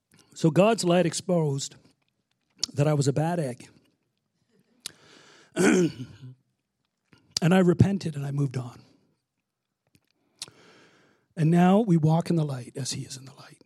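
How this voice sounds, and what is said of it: Voice giving out. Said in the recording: “this is my third service today, so I'm losing my voice.”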